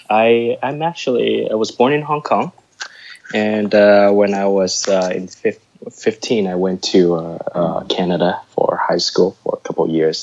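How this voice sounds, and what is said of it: Slight American accent. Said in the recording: “I may sound a little American.”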